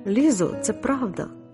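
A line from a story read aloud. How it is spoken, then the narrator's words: Plain. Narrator (Ukrainian): сказала Паула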